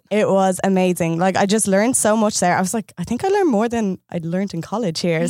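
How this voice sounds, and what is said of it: Irish accent. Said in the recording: “what a gorgeous accent. ... It's Ireland.”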